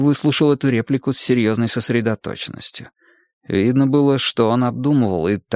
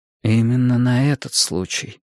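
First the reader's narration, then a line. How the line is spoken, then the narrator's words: Dull muffled voice. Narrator (Russian): глухо произнесла Мария Семеновна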